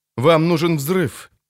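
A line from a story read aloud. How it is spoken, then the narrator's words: Sigh. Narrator (Russian): вздохнул Холден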